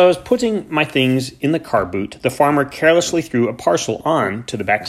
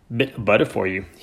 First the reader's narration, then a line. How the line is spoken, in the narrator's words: he muttered